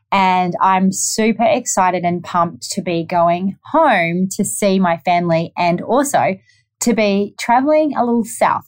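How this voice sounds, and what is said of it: New Zealand accent. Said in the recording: “I'm from New Zealand, if you haven't already picked up my accent.”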